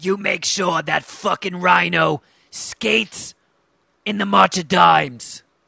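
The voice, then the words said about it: Good Harvey Fierstein impression. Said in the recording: “do a Harvey Fierstein impression... That's a good impression”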